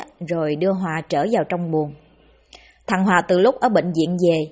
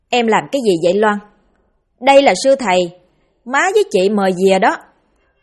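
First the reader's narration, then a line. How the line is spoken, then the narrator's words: Angry. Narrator (Vietnamese): Liễu lúc này tức giận nói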